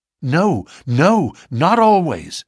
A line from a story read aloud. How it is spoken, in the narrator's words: cried Morris with vehemence